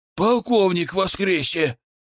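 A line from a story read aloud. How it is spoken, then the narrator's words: Shouted. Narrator (Russian): прокричал какой-то дурак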